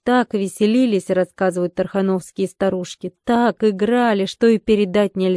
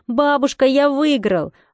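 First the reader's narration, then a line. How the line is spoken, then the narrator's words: Joyful child's shout. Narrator (Russian): Михаил Юрьевич ... с большой радостью ... кричал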